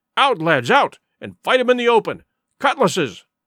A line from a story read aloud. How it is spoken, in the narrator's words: cried the captain